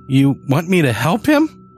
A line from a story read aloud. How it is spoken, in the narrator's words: I squeaked